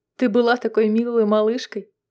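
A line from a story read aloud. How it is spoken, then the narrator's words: Laughing. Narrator (Russian): засмеялась Мэгги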